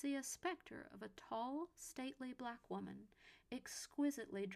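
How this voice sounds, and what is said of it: Usual voice. Nothing is said of it.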